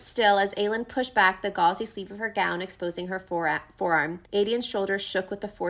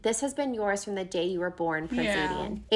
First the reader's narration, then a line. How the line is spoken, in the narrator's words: Aelin said quietly, but not weakly